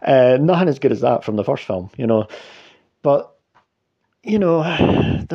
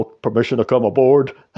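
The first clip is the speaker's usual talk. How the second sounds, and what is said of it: Poor Jason Momoa impression. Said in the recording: “That was my shit impression of Jason Momoa there.”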